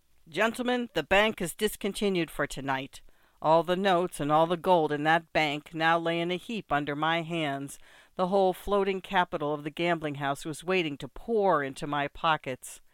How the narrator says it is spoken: the croupier called out

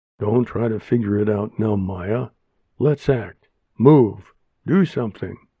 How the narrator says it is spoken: Wilma said

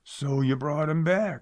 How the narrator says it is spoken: snarled

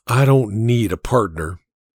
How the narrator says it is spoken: he whispered back

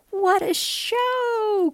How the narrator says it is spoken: cries out the monkey

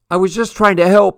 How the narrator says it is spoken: cried

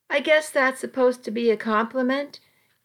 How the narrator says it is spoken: he replied dryly

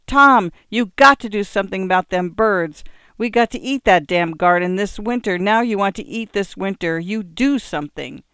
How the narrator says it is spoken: His wife screeching

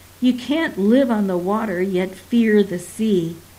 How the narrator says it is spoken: cup her mouth and yells

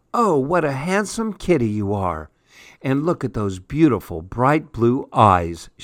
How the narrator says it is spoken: exclaimed

